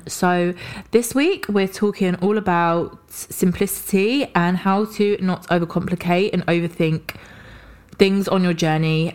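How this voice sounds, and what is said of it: Hoarse voice from a cold. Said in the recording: “excuse my voice. ... suffering a little bit from a bit of a sore throat cold”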